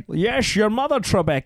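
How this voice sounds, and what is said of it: American-style imitation of a Scottish voice. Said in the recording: “my favorite impression of Sean Connery is Americans doing Sean Connery. Like I'm Scottish, I could do Sean Connery, but I prefer the”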